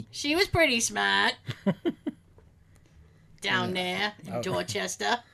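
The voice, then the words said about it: Exaggerated Boston accent. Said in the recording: “I just heard my Boston accent just really bad.”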